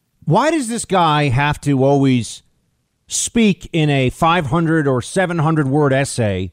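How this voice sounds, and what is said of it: Usual voice. Nothing is said of it.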